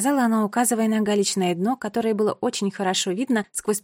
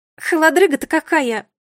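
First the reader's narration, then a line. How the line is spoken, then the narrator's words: Shrill squeal. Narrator (Russian): взвизгнула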